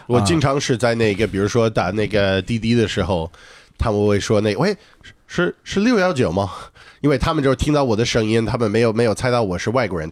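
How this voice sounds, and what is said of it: Mandarin with slight non-local accent. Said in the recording (Chinese): “我跟他沟通不会觉得我我是在跟一个外国人沟通啊，我就觉得我在一个新疆人 ... 他们听到了口音，知道我不是他们本地的人 ... 但是猜不到我是哪里人”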